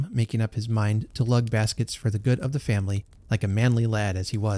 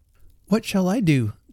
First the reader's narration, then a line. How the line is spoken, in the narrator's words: cried Sammy